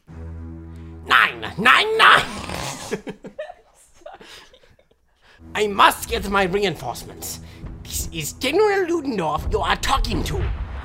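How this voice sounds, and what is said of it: German general's accented voice. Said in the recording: “This is General Ludendorff ... this accent is completely identical, nearly identical to what he would have sounded like”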